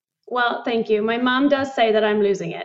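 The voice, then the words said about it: British accent. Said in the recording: “Your accent is so lovely. It's so refreshing. ... I love the British accent.”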